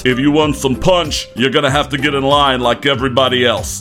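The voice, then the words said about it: Stern voice. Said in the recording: “in a stern voice”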